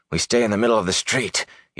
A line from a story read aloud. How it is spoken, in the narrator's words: he said hoarsely